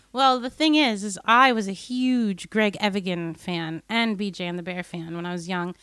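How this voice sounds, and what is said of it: American accent. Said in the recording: “as you can tell from my voice and accent, from growing up in the States”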